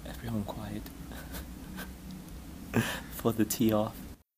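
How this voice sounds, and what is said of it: Hushed golf commentator narrator voice. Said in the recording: “his best golfing narrator impersonations”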